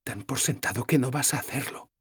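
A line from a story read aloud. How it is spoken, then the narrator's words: Whisper. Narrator (Spanish): me susurró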